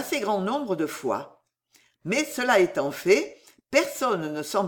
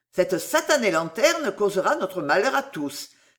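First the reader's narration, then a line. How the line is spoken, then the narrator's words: Sour exclamation. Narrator (French): s'écria Sam aigrement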